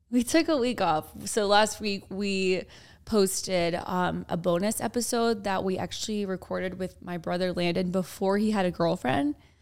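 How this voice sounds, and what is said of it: Raspy voice. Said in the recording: “sorry for my raspy voice. I kind of like it though. I'm feeling like it's a little sexy.”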